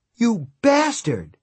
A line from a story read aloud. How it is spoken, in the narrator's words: she cried